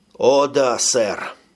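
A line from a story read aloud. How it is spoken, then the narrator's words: Sigh. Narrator (Russian): вздохнул секретарь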